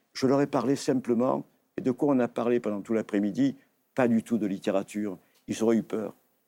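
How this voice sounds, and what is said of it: Southern French Marseille accent. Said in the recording (French): “Ils ont vu que j'avais leur accent, que j'étais supporter de l'OM”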